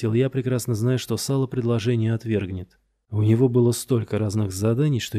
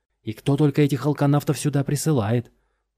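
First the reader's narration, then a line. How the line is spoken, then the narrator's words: Yelled. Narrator (Russian): заорал он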